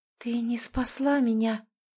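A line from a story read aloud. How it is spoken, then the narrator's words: Whisper. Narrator (Russian): прошептала Ольга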